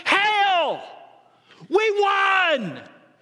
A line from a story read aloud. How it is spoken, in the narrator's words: shouts in a loud voice